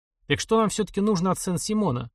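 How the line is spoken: Plain question. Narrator (Russian): спросил Свистунов

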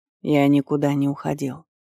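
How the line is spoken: Quiet. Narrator (Russian): произнес тихо

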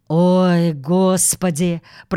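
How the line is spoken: Groaned. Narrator (Russian): простонал мистер Браун

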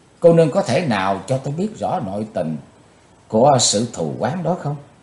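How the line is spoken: Stern question. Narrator (Vietnamese): chàng nghiêm giọng hỏi nàng

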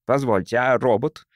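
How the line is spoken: Irritated blurt. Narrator (Russian): раздраженно выпалил он

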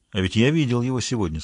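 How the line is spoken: Plain. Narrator (Russian): сказал он

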